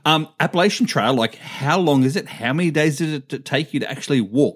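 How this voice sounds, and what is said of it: Non-American accent. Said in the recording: “obviously I'm not from America, obviously, by the accent.”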